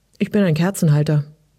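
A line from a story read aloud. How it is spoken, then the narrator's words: Dry reply. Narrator (German): kam es trocken zurück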